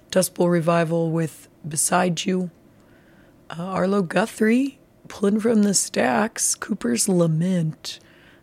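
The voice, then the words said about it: Hoarse, nearly lost voice. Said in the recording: “my voice is gone.”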